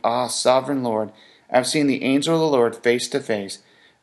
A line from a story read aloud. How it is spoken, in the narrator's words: When Gideon realized that it was the angel of the Lord, he exclaimed